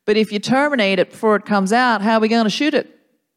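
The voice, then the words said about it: Good Southern Texan accent. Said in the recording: “Very good accent as well ... I learnt it from Friday Night Lights ... Southern Hospitality”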